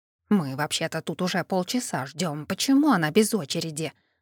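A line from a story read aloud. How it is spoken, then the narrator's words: Displeased hiss. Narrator (Russian): раздалось вдогонку недовольное шипение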